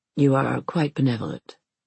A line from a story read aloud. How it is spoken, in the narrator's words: he says dryly